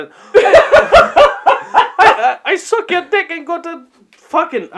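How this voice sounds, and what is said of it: Put-on Indian accent. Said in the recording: “What the fuck is that accent? ... I'm going Indian.”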